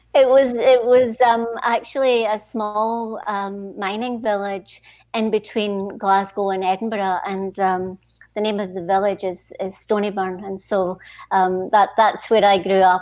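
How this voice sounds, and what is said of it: Scottish accent. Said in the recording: “I'm sure our listeners and viewers will know by my accent that I'm from Scotland originally.”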